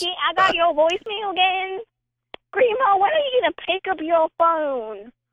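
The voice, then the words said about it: Southern US accent. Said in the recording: “What is this accent? I am fascinated. ... Appalachia. ... It's somewhere in the South, right?”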